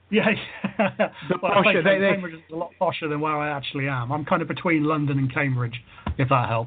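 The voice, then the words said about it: Southern English accent. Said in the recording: “I can detect a southern accent”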